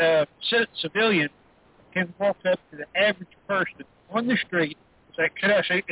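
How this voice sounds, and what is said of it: Usual voice. Nothing is said of it.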